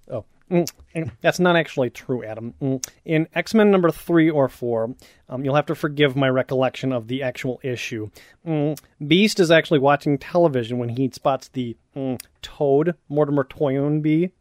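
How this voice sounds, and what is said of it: Nerdy pedantic put-on voice. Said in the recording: “Can you use your nerd voice?”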